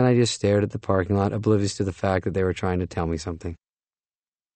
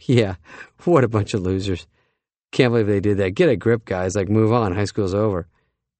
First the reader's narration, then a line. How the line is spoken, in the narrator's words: I would chuckle